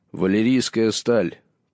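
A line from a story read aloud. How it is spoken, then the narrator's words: Solemn proud proclamation. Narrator (Russian): провозгласил Джон торжественно, пытаясь показать подобающую случаю довольство и гордость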